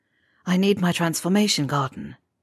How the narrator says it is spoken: mumbling

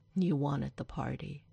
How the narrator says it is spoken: he sighs

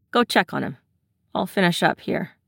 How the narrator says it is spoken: says

